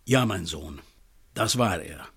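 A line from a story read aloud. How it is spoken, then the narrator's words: Calm. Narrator (German): Er atmete einmal tief ein und aus und sagte dann ruhig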